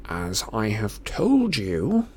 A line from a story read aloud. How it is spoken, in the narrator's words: he said through gritted teeth